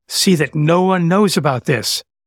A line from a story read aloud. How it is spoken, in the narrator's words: Jesus sternly warned them, saying